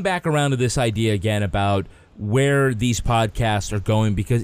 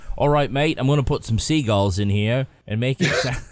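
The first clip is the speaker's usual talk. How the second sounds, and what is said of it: Bad put-on Australian accent. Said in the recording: “you should not do the Australian accent ... Badly.”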